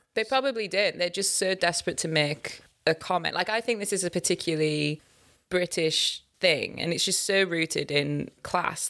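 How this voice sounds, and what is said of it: Northern English Hull accent. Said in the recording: “You are born and you are raised in Hull. This is how you speak. ... you did try to neutralize your accent a little bit ... people can tell you're not from the south of England”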